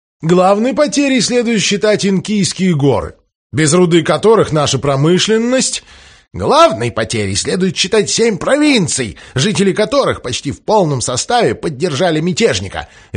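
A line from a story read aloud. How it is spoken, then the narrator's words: Barked. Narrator (Russian): рявкнул Джефферсон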